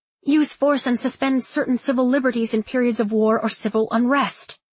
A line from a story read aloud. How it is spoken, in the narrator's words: she said impatiently